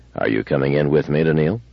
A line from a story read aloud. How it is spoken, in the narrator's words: gloomily said